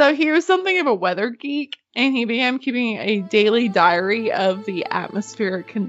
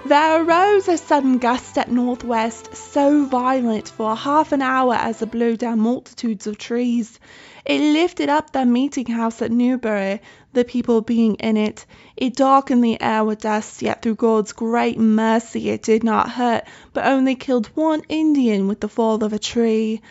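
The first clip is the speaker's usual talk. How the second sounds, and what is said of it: Attempted British accent. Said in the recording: “I wish I could have a British accent ... I don't even know if I can do a British accent ... I'm so sorry to our English listeners.”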